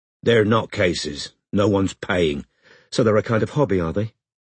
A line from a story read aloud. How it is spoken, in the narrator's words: said Robin